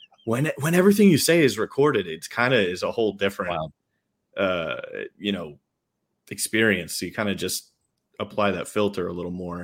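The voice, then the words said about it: New York accent. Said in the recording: “I love your accent. Your accent definitely comes out ... the New York accent”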